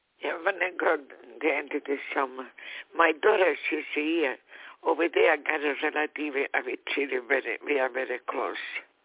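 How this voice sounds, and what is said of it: Beautiful foreign accent in English. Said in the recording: “I grew up in an Italian family, and you have a beautiful accent.”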